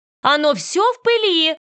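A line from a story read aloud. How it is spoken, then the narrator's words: Shout. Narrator (Russian): крикнула мне госпожа Маккарти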